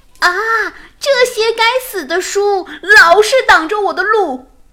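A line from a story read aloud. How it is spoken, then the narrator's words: Shouting. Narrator (Chinese): Mina 常常叫喊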